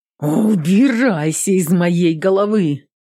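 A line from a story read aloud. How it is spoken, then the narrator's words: Furious near-growl. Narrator (Russian): Почти прорычала она, впадая в ярость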